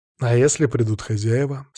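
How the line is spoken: Calm, level question. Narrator (Russian): спросил я спокойно, не повышая голоса

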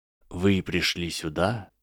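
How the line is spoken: Quiet voice. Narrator (Russian): начал он тихим голосом

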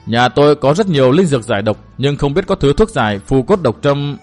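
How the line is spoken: Sudden muttering. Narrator (Vietnamese): Trương Thiên Thiến bỗng lẩm bẩm nói

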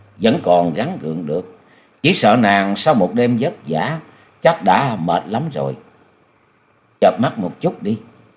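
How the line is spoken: Smiling. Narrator (Vietnamese): Nhậm Xương Bạch mỉm cười nói

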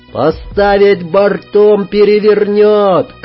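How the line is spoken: Shout. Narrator (Russian): крикнул Сергей

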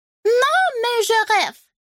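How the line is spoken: Squeak. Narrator (Russian): пискнул Жак

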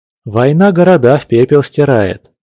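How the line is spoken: Heavy sigh, Cossack. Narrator (Russian): тяжело вздохнул казак

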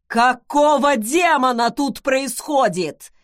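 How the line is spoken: Hoarse full-lung bellow. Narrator (Russian): Во всю силу легких рявкнул он хриплым голосом

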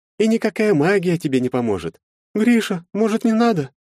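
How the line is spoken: Timid. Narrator (Russian): робко произнесла Агнета

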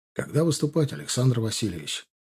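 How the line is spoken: Quiet question. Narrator (Russian): спросил негромко Егоров

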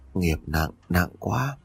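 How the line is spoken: Tongue click, soft. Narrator (Vietnamese): Bà cô tặc lưỡi rồi khẽ nói

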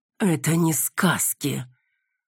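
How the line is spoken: Furious hiss. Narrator (Russian): Прошипел он яростно

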